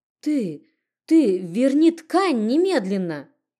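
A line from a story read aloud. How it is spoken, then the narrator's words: Stammering furious shout. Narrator (Russian): Запинаясь от злости, что кипело внутри, прокричала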